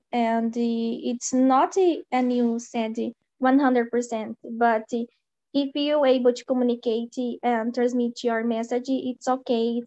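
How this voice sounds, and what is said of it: Sick, flu-affected voice. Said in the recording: “sorry about my voice. I feel, I feel uh, a little bit sick. I have a little flu”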